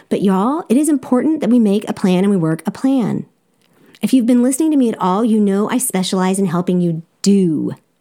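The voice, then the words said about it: Strong Southern US accent. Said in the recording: “an unshakable Southern accent, which you also hear”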